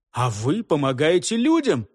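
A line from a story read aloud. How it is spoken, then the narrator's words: Exclaiming. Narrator (Russian): воскликнул я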